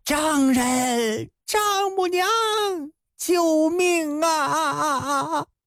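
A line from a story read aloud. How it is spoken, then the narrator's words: Shouting. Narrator (Chinese): 他这一喊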